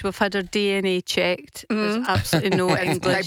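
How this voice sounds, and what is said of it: Scottish accent. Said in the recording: “has a Scottish accent”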